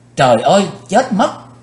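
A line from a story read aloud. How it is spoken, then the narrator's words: Panicked scream. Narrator (Vietnamese): Quỳnh Dao hoảng hốt hét lên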